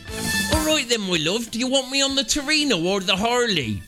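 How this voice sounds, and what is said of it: Thick Bristolian accent. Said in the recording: “in a thick Bristolian accent”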